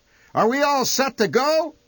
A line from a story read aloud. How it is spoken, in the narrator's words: he shouted